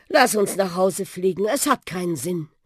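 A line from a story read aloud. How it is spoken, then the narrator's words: Sigh. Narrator (German): seufzte der Buschi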